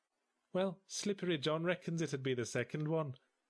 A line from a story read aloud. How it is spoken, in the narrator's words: said Slippery John cheerfully